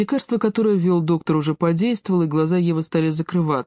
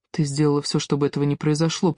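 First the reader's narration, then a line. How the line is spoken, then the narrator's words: Whispered. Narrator (Russian): прошептал Александр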